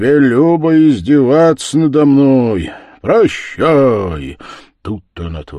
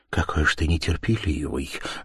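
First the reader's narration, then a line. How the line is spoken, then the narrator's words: Low voice. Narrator (Russian): говорила она ему вполголоса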